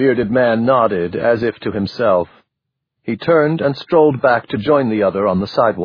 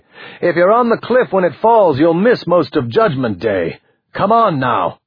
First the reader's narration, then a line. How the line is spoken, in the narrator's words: The black man in the expensive business suit called more urgently